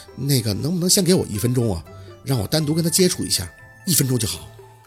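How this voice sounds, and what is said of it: Quiet, hushed speaking voice. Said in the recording (Chinese): “小声的开口”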